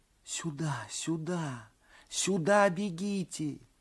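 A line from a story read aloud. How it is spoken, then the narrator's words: Whispered. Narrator (Russian): шептали губы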